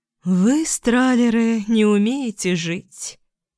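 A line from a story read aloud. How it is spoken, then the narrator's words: Sigh. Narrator (Russian): вздохнула она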